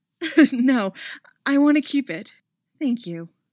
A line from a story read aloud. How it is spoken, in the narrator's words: with a breath of laughter, she says in a more normal tone